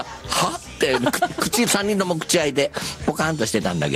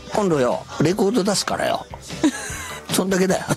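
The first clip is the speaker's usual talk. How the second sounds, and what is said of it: Imitates another person's voice. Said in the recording (Japanese): “今モノマネ。 ... モノマネです。 ... 金ちゃんの。”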